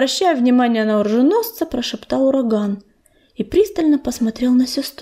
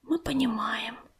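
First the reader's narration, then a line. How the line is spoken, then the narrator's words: Whispered. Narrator (Russian): прошептала сестра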